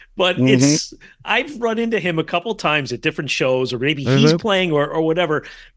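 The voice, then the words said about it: New Jersey accent. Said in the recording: “When you say Jerry, like you're from New Jersey ... You got that accent.”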